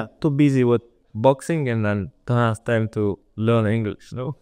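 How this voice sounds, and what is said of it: Caucasus-region accent in English. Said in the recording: “there's many people coming from these Caucasus region, like Habib and, you know, Hamzat and all. So we understand the accent fully now”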